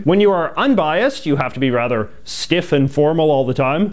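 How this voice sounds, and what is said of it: Canadian English accent. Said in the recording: “from Canada. You can hear that lovely accent.”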